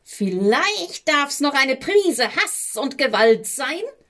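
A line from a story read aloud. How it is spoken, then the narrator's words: Shrieking. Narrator (German): kreischten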